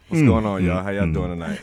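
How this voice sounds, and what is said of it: Radio announcer voice. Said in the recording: “The Love Zone bringing out that radio voice in them.”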